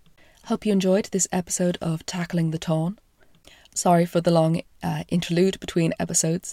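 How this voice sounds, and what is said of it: Croaky, hoarse voice. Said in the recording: “as you can possibly hear, I've got a bit of a chest infection ... my voice is still a little croaky”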